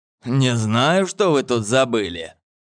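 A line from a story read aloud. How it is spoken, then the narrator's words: Old man, through gritted teeth. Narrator (Russian): процедил сквозь зубы старик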